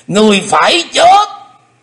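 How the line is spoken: Loud roar. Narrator (Vietnamese): Xích Phát Âm Ma gầm to

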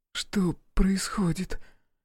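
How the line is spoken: Hoarse question. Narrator (Russian): хрипло спрашивает Алиса

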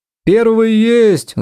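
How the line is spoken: Shouting from a crowd. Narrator (Russian): закричали в толпе

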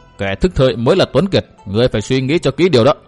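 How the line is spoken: Cold dismissive laugh. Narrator (Vietnamese): Dịch Thiên Hành lại cười nhạt

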